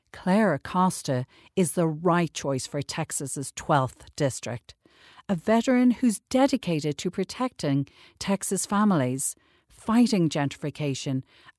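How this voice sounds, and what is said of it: Slight Irish accent. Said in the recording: “Little accent in there... Irish... a little accent”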